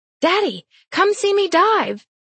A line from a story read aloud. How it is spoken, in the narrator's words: The kid beams, her smile as wide as the sky, as she shouts